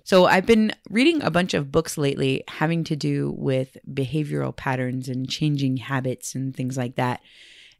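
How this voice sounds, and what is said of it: Scratchy voice, has a cold. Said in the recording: “I am not feeling great today. I hope my voice isn't too scratchy or irritating to listen to, fighting off a little bit of a cold”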